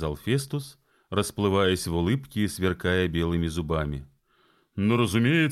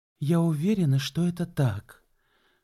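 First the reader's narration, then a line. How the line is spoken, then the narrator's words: Gentle. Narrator (Russian): мягко сказала Энн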